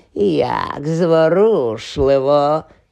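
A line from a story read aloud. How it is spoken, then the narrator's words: Hissing. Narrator (Ukrainian): зашипіло воно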